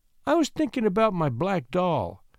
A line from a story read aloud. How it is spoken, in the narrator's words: said little Joyce, timidly